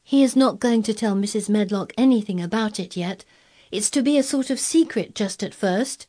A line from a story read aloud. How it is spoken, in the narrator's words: said Mary firmly